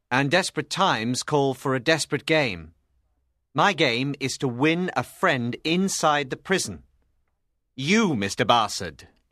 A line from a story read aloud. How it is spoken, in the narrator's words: announced firmly